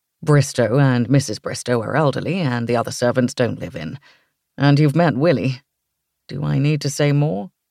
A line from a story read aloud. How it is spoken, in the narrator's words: I laughed